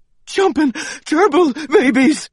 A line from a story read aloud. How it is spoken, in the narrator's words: I panted